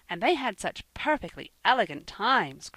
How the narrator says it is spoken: cried Percy, enviously

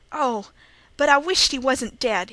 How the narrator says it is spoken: cried

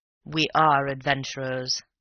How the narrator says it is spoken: said Raffles gravely

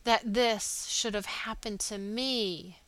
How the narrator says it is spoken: he groaned

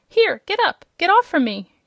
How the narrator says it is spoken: cried a faint voice

